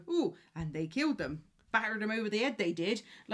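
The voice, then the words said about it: Put-on Somerset West Country accent. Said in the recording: “I'm not slagging off the accent because I'm Somerset”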